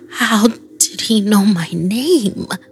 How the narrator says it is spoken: I mumbled

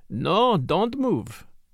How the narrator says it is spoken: he said in a silky voice

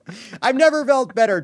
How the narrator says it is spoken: Trump shouted

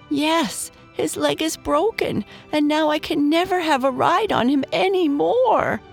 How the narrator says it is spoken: sobbed Dave

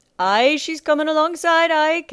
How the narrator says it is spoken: Captain Nightletter called out

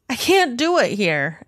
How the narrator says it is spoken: he yells

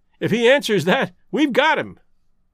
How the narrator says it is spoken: cried Lestrade

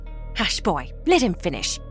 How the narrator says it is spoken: Martha snapped

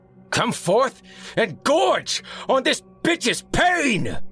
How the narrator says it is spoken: roared, exultant

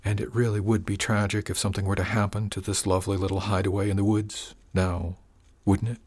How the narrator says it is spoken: He lowered his voice to whisper

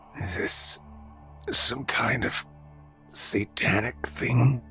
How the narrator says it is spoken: Oscar croaked

